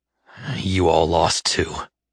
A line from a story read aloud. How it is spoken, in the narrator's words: River grumbled